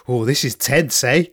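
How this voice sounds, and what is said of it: Put-on South African accent. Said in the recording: “in his South African accent”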